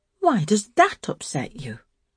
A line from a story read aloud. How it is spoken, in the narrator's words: asked the eldest Miss Rowbottom, sharply, of Emma the mother